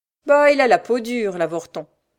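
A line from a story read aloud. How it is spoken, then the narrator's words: Dismissive sneer, beggar woman. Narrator (French): ricana la mendiante, qui voulait maintenant mettre fin à cette conversation qu'elle jugeait inutile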